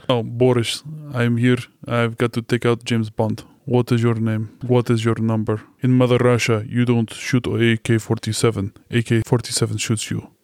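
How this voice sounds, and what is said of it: Put-on Russian accent, drunken-sounding. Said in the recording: “Have a good Russian accent ... Still sounds American ... Russian accents ... It's a drunk Russian”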